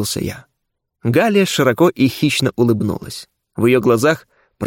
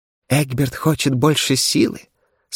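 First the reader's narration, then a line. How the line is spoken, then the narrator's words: Whisper through gritted teeth. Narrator (Russian): сквозь зубы прошептала она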